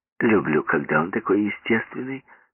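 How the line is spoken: Plain. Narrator (Russian): сказала Флер

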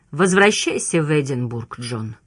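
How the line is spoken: Tired. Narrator (Russian): устало проговорил он

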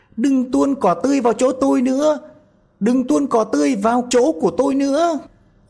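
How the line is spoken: Panicked screaming. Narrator (Vietnamese): Trong lúc hoảng sợ, nó thét tướng lên

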